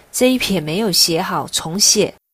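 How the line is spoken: Angry. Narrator (Chinese): 愤怒地

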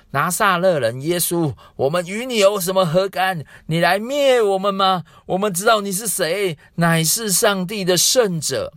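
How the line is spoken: Possessed man crying out. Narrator (Chinese): 有一个人被污鬼喊着，他喊叫说

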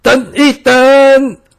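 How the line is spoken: Sudden shout. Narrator (Chinese): 突然间有人 大喊

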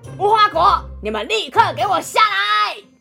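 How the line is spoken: Interrupting, shouting loudly. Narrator (Chinese): 小猪打断乌龟说话，接着对树上的无花果大喊

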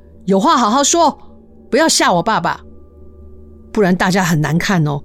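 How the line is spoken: Loud. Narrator (Chinese): 他也大声的对着空间说

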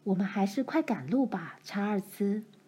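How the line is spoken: Low voice. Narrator (Chinese): 妈就低声说

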